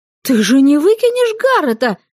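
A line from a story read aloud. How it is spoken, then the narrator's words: Exclamation. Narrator (Russian): воскликнула я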